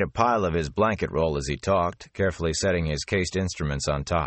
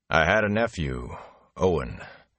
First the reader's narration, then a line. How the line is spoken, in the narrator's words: he said wearily